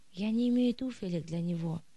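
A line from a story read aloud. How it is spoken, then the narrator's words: Sighing mother. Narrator (Russian): вздохнула мать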